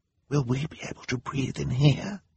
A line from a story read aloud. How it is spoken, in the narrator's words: Violet asked Klaus as quietly as she could